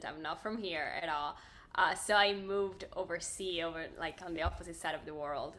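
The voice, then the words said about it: Speaks with a foreign accent. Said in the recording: “as you can hear, I have an accent.”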